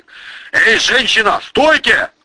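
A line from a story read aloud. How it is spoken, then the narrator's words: Shout. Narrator (Russian): крикнул он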